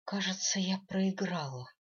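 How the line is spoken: Exhaled. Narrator (Russian): выдохнула она

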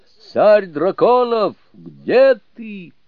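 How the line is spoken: Shouted. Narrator (Russian): Суню-кун крикнул

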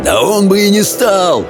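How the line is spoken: Yelling reply. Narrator (Russian): завопил в ответ Хоу

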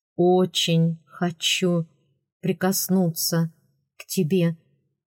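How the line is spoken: Halting, muffled voice. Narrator (Russian): прерывающимся глухим голосом сообщил Родерик де Лаэрт

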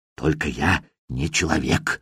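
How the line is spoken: Fervent whisper. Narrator (Russian): вновь раздался жаркий шепот

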